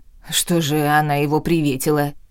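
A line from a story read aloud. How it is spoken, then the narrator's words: Snapping, but much calmer. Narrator (Russian): огрызнулась Эления, но уже гораздо спокойнее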